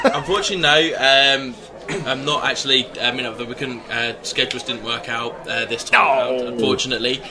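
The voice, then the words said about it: Strong accent, hard to understand. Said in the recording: “For the people who can't understand your accent, spell it.”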